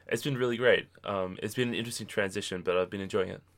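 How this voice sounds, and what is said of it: Australian accent. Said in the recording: “I'm from Australia, if you hadn't heard the accent already.”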